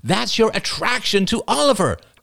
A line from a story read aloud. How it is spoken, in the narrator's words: cried Ian